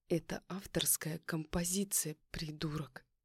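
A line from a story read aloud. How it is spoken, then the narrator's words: Hissing through teeth. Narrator (Russian): Зашипела я сквозь зубы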